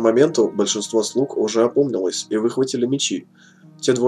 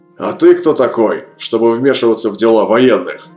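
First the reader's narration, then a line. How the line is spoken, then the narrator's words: Sharp snapping retort. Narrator (Russian): огрызнулся сержант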